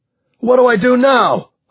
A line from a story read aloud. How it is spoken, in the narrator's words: Harvey shouted